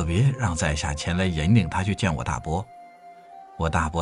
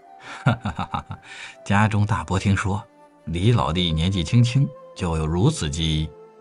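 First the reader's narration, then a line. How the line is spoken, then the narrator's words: Forced dry laugh. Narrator (Chinese): 傅彤哈哈哈的干笑几声，才说道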